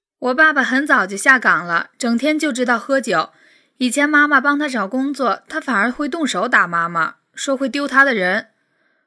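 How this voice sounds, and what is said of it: Heartbreaking, sorrowful voice. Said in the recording (Chinese): “用一种让人听了心痛的声音”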